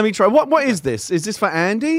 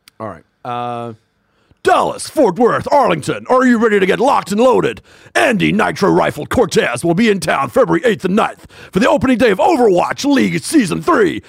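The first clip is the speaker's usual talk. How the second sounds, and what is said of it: Epic esports announcer voice. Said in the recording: “use an epic esports announcer's voice ... I don't know if I can do an epic esports announcer voice ... Do an epic soccer announcer's voice”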